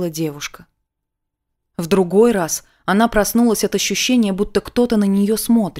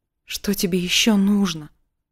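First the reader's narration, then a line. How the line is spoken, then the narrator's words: Frightened hushed exclamation. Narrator (Russian): вполголоса испуганно воскликнула она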